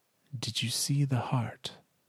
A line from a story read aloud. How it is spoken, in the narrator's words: She asks softly